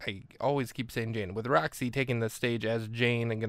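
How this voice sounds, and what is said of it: Usual voice. Nothing is said of it.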